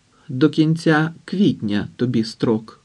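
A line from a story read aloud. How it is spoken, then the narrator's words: Plain. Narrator (Ukrainian): сказала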